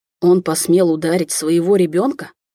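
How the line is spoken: Hateful through gritted teeth. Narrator (Russian): с ненавистью в голове процедил Летунов

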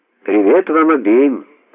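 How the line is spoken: Husky female voice. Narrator (Russian): раздался сзади женский голос с хрипотцой

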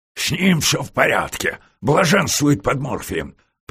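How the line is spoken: Growled. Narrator (Russian): Профессор не говорил и рычал

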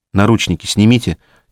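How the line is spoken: Quiet request. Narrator (Russian): тихо попросила она

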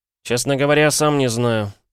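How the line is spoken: Crestfallen voice. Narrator (Russian): упавшим голосом отвечал Пол

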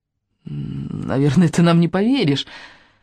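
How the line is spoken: Embarrassed mumble. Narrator (Russian): краснее пробормотал Райан

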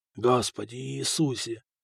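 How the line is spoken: Whispering. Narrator (Russian): шептал Фока обкусанными губами

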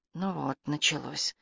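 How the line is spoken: Muttered through teeth. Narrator (Russian): сквозь зубы пробормотала Карен

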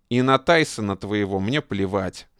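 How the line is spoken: Rough, rude. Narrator (Russian): грубо сказал Фитиль

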